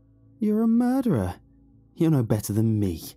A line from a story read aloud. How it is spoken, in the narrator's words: he cackled